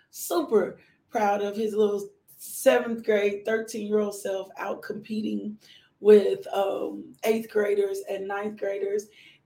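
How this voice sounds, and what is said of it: Hoarse voice. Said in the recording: “my voice is a little hoarse”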